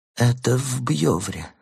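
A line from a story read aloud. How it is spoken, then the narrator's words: Mumbling. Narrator (Russian): забормотал он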